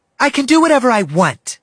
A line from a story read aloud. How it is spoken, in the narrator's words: she yelled, her eyes growing wide like a villainess